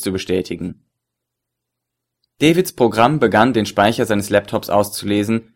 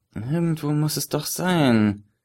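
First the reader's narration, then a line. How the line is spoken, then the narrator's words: Focused muttering to himself. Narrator (German): murmelte er konzentriert vor sich hin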